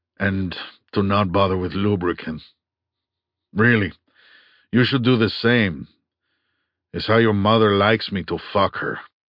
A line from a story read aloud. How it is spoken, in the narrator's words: he said calmly